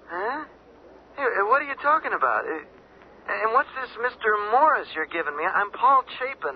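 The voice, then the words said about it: Drunk-sounding speech. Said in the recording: “He sounds drunk”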